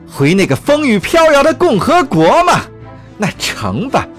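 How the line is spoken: Roaring. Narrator (Chinese): 女首相咆哮道

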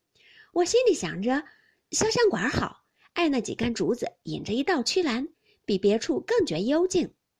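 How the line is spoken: Laughing. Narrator (Chinese): 林黛玉笑道

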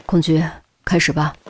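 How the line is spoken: Low voice. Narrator (Chinese): 范哲低声说了句

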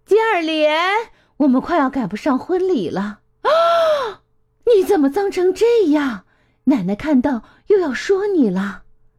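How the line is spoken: Calling out. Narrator (Chinese): 吉尔莲的妈妈喊道

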